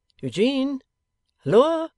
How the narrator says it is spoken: He raised his voice and called

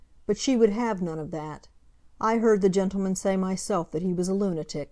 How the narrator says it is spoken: she said fiercely, and then dropping her voice

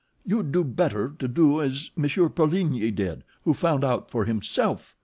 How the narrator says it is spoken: she cried indignantly

